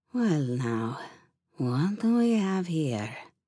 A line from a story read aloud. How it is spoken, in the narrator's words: purred